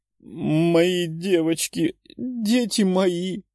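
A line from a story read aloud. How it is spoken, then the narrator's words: Woman sobbing. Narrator (Russian): рыдала женщина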